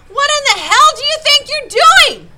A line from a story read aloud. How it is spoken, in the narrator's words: the driver yelled